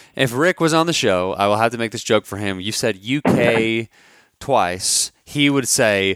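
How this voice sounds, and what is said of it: Usual voice. Nothing is said of it.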